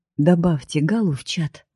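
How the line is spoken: Soft command. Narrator (Russian): мягко приказывает он мне

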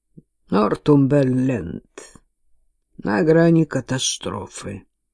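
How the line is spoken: Gloomy reply, father. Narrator (Russian): мрачно отвечает его отец

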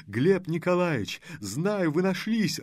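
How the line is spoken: Joyful. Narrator (Russian): радостно заявил он

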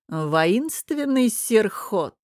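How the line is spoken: Mocking laugh. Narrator (Russian): издевательски рассмеялся Намир

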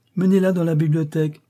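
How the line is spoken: Imperious exclamation. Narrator (French): s'écria impérieusement le bel ange

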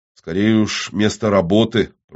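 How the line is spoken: Grumbling. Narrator (Russian): проворчал Абуза

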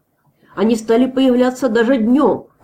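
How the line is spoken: Shout. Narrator (Russian): крикнул кто-то из бородачей

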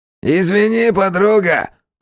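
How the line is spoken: Nasty distorted voice. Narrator (Russian): противным искаженным голосом произнес один из них

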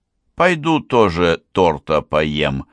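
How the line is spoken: Plain. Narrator (Russian): сказал я Ванье

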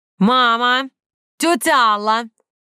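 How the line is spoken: Loud siren-like yell. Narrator (Russian): С порога завопив не хуже пароходной сирены

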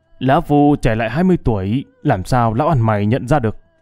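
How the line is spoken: Smug loud laugh. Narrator (Vietnamese): Kiếm Sĩ đắc ý cười lớn

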